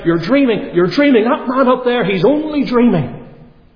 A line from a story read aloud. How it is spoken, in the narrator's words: And he began to shout out